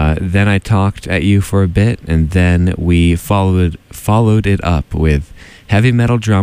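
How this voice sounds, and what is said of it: Usual voice. Nothing is said of it.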